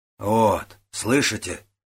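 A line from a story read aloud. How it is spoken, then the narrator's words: Plain. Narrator (Russian): сказал Додзугун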